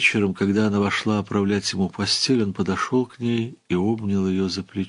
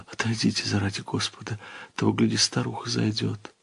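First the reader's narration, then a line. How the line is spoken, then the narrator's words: Frightened, embarrassed whisper. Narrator (Russian): с испугом, вся покраснев, прошептала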